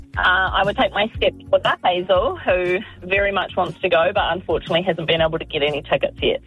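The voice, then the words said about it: Welsh accent. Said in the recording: “Amazing Welsh accent.”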